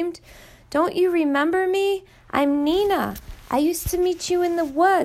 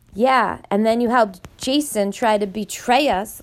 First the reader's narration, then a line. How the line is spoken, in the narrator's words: Lee snarled back